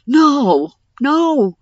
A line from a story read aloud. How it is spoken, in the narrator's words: Darsh shouted